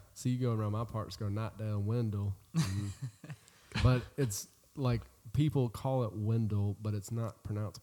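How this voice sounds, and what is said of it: Eastern North Carolina Southern accent. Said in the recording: “the Eastern North Carolina accent that I have”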